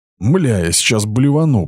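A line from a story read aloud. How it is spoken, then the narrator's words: Nauseous groan. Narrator (Russian): простонал Денис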